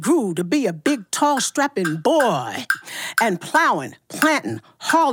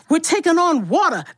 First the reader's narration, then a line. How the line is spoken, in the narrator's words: the captain cried